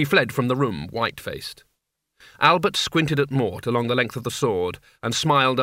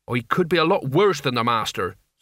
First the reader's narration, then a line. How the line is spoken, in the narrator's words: said Mort evenly